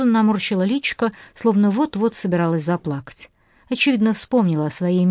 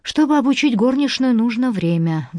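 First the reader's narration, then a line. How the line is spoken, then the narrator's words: Sigh. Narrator (Russian): вздохнула Дафна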